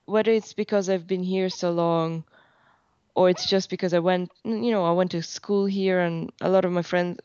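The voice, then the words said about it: Irish accent. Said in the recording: “your accent is so Irish”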